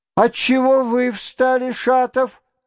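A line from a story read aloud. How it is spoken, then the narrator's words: Shouted. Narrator (Russian): крикнула хозяйка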